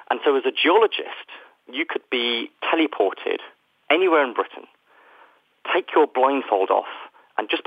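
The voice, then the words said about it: British accent. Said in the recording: “the United Kingdom, where, as you can probably tell from my accent, I am from”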